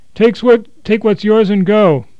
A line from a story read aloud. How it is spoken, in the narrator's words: he shouted